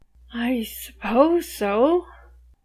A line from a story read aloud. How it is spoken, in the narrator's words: Alice says, so timidly